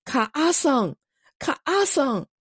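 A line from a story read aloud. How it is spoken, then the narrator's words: Calling out. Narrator (Chinese): 喊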